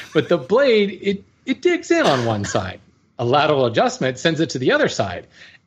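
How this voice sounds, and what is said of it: Strong accent. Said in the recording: “I love your accent. It's got a nice, strong edge on it,”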